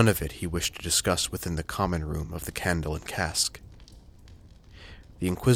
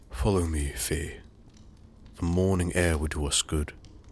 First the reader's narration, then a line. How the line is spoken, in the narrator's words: said flatly